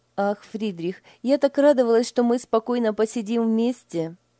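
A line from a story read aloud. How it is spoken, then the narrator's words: Sighing. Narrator (Russian): вздохнула Лиля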